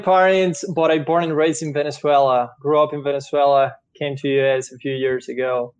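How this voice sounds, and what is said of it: Strong foreign accent. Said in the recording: “what is ... accent from? ... Very strong accent. ... It's still a strong accent here.”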